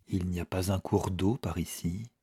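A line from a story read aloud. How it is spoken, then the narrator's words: Murmuring man. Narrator (French): murmura-t-il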